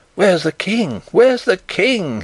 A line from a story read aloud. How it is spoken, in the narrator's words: he cried